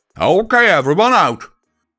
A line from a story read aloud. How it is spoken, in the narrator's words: Applejack shouted